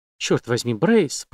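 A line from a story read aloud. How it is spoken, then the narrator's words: Muttering. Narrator (Russian): пробормотала она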